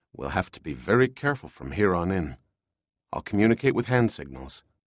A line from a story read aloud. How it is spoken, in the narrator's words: Lowering his voice, he said